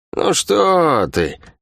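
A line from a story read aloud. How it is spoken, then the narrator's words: False tone. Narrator (Russian): фальшивым тоном произнесла Лавианя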